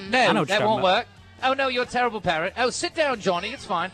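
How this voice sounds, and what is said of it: British woman's voice impression. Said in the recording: “she's British ... You do a great impression of her”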